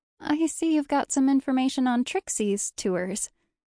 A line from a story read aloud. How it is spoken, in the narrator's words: she tinkled brightly